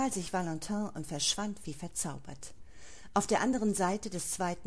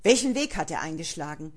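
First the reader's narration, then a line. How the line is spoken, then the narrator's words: Harsh snap. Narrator (German): schnauzte ihn Valentin an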